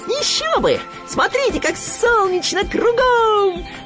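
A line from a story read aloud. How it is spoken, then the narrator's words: Squealing. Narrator (Russian): взвизгнул Хрюня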